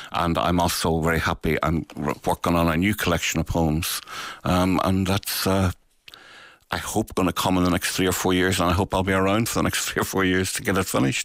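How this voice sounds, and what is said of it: Beautiful lasting accent. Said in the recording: “I also love your speaking voice. You're such a beautiful accent. You've never lost it.”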